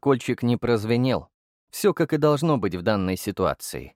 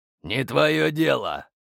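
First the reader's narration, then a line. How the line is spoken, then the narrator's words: Barking officer. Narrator (Russian): рявкнул подполковник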